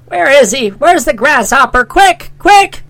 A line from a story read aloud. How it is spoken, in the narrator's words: she screamed